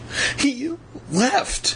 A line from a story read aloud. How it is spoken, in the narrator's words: Evan choked out